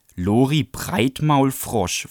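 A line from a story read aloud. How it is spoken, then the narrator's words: Snarling. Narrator (German): fauchte Bradley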